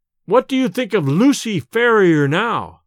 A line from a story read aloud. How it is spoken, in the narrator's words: I cried